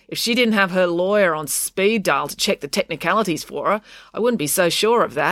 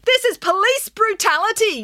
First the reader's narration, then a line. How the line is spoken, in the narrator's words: yelled Daisy